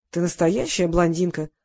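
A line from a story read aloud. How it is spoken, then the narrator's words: Sigh. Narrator (Russian): вздохнул Семен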